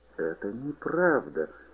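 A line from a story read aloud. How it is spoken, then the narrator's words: Moaning. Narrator (Russian): застонал подуст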